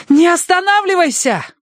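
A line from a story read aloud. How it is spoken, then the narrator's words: Shouted over the din. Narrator (Russian): крикнула Минкс, потому что только крик мог быть услышан в этой симфонии катастрофы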